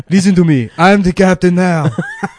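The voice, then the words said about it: Imitates another person's voice. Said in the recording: “That was just Arnold Schwarzenegger.”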